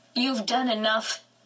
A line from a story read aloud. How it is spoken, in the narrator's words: Mama snapped